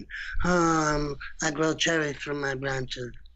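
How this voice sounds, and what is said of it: Imitates another person's voice. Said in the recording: “I started doing a Marlon Brando impersonation. ... it looks like the Godfather”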